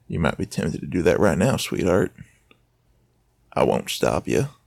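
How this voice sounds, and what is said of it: Southern accent. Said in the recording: “this southern accent”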